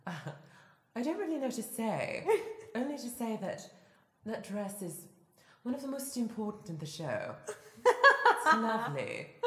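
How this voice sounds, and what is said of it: Character impression, pitch drops at sentence ends. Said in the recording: “my Mary impression ... She always like drops really low at the end of her sentences. ... there's this sort of cadence”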